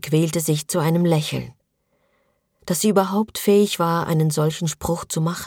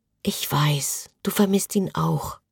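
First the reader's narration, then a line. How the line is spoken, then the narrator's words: Whispered. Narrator (German): flüsterte Josephine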